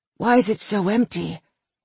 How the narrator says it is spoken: Bates whispered

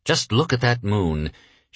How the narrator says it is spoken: sighed

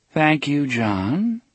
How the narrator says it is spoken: Miss Avery said in her endlessly calm voice

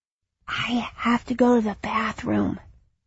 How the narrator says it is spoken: he whispered

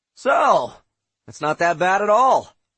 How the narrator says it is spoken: I exclaimed

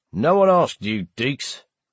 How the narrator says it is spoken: a voice replied dryly

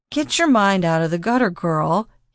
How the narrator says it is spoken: he chuckled

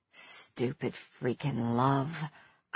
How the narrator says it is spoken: I mumbled

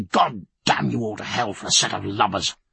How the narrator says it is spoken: Under his breath he said

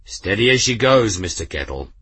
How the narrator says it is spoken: the grim captain said, his voice stern

